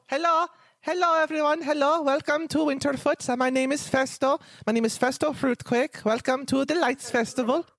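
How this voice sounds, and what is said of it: Character voice with an accent. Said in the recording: “Are you making fun of his accent? ... the way a man talks”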